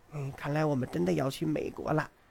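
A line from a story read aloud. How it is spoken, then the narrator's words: Sulky whisper. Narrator (Chinese): 他鼓着脸跟大雄小声说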